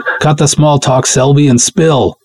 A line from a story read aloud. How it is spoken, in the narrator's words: I shout loud enough for the handset to pick up